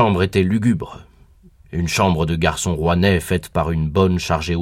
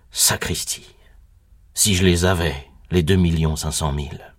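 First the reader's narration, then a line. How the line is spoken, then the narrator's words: Startled murmur. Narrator (French): Et je murmurai, saisi par un brusque souvenir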